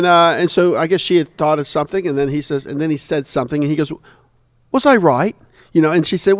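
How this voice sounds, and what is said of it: Usual voice. Nothing is said of it.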